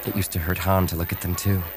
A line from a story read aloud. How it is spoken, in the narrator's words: she murmured